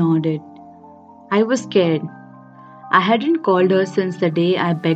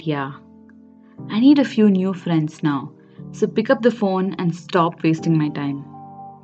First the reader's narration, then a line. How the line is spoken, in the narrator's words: Pain let out a sigh and said